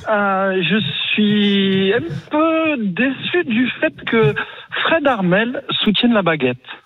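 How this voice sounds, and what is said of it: Heavy regional accent. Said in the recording (French): “on a le gros accent, en fait, j'adore.”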